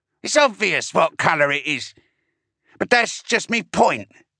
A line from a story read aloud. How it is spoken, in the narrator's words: continued hastily